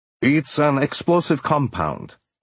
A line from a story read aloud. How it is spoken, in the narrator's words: Malenchenko said